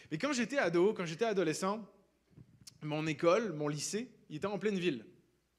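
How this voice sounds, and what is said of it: Non-Québécois French accent. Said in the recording (French): “qui n'avaient pas remarqué à mon accent, je ne viens pas du Québec”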